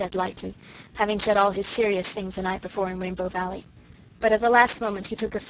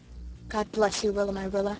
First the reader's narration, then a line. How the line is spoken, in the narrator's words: he said softly and tenderly